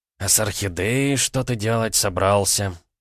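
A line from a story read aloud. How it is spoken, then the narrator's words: Disapproving creaky voice, old man. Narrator (Russian): неодобрительно проскрипел старик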